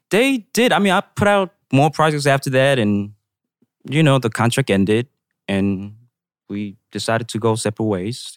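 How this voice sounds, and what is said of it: New York accent. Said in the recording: “I like your accent. It's really cool. ... Like he says dill instead of deal. ... You sound like you're from New York. ... it's very New York.”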